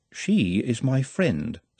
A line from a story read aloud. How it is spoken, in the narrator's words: said Nutt calmly